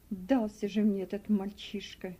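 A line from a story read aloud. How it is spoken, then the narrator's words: Muttered. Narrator (Russian): пробормотал работорговец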